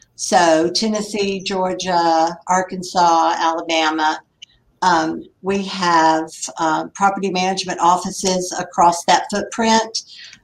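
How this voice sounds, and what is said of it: Southern US accent. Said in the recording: “we'll probably be able to tell where you're from your accent ... I'm from the Carolinas”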